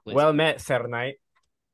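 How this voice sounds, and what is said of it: Character voice. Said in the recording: “let me do that with my character voice.”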